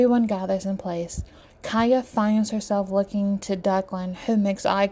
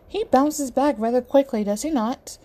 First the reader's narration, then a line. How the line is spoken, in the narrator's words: Emoji laughs